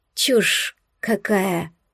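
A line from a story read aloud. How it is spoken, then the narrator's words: Forced out. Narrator (Russian): выдавила я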